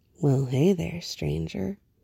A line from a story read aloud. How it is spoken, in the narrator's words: Clark murmured